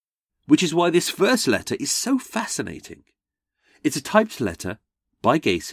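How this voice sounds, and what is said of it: Usual voice. Nothing is said of it.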